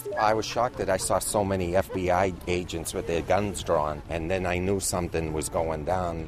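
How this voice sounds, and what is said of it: Strong Boston accent. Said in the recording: “You can tell by the accent”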